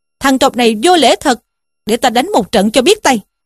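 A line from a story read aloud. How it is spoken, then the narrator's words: Angry shout. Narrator (Vietnamese): Dương Chí tức mình mà quát lên rằng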